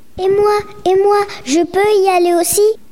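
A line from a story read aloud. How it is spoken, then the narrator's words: Exclaiming. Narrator (French): s'écrie-t-elle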